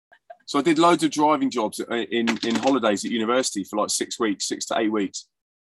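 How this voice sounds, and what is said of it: Southern English accent. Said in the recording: “I've still got a Southern accent”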